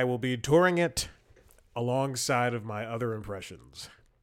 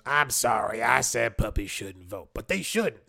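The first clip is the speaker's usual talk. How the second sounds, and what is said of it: Imitates another person's voice. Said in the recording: “That was my Whoopi Goldberg impression.”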